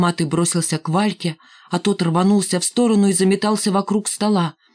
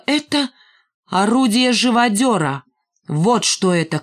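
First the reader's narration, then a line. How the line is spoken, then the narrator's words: Shouting. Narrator (Russian): крикнул Рыжий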